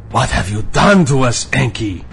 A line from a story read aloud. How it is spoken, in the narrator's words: howled in my face